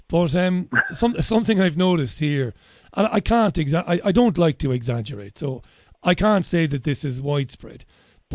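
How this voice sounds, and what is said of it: Strong Irish accent. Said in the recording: “I'm an Irishman. You can probably tell that by my outrageous accent”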